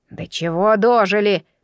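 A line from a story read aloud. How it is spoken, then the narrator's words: Grumbling. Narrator (Russian): пробурчал невидимый дядюшка Дигун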